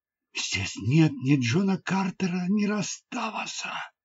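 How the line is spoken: Whispered. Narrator (Russian): прошептала

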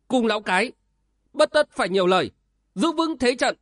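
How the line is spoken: Shout through gritted teeth. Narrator (Vietnamese): Đoàn Phương công tử trên cao nghiến răng quát lên

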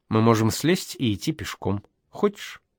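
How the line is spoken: Calm. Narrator (Russian): Маруся сказала спокойно

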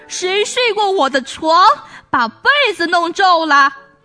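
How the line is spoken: Father bear's frightening bellow. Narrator (Chinese): 熊爸爸用可怕的声音哇哇叫

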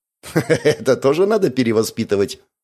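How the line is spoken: Laughing question. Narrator (Russian): Смеясь, поинтересовался он

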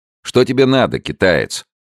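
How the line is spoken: Sharp question. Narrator (Russian): резко спросил Алессандро

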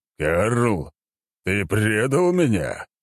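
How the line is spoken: Puzzled thundering voice. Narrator (Russian): озадачно прогремел Конунг

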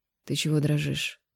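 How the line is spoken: Sleepy mutter. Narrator (Russian): Не открывая глаз, пробормотал

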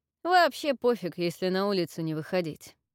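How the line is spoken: Snorted. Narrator (Russian): фыркнул Авис

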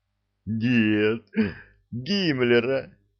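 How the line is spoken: Farmer answering through laughter. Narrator (Russian): сквозь смех ответил фермер

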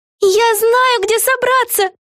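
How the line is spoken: Excited yelling. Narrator (Russian): Завопила она

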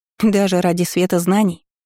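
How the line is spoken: Snort, young ward. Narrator (Russian): хмыкнула воспитанница

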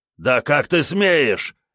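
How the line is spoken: Warrior's growl. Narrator (Russian): рыкнул один из воинов

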